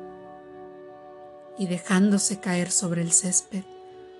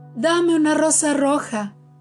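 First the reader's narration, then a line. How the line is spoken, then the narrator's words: Shouted. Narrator (Spanish): le gritó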